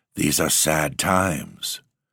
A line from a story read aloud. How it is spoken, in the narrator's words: Monsieur Sauvage, with a sigh, murmured